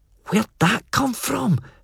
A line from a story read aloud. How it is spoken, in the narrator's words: Felpie breathed beside me